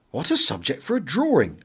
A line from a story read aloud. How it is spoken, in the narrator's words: exclaimed